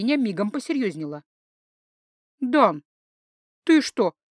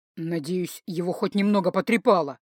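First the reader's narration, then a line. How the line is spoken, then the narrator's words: Through gritted teeth. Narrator (Russian): процедил Дан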